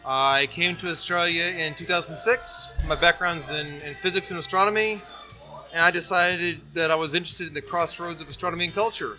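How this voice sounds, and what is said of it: American Midwestern accent. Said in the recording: “I'm from the US, as you can tell by the horrible Midwestern accent.”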